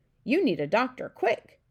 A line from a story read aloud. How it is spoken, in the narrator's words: cried the king